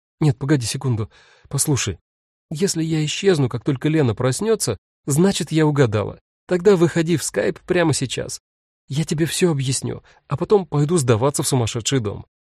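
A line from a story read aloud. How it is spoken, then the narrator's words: Bewildered. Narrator (Russian): сказала растерянно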